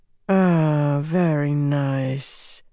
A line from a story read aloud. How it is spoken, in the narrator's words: the third woman said in a slow drawl